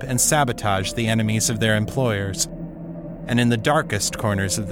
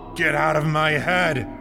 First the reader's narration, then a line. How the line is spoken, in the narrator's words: he shouted